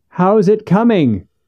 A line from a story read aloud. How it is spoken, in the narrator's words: Monterey shouted to the man across the pond